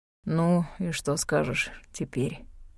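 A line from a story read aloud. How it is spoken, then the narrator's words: Tired voice. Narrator (Russian): спросил Люциус усталым голосом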